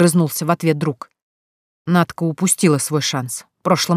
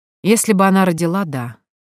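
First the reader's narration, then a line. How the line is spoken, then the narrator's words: Calm. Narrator (Russian): спокойно ответил друг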